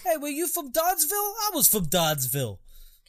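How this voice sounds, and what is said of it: Thick put-on Boston accent. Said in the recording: “they're all from Boston ... they're doing English accents, so a lot of people have to do a thick one in order to do any American accent”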